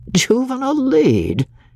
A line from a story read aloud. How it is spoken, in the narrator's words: had exclaimed, unable to hide something of incredulity in his voice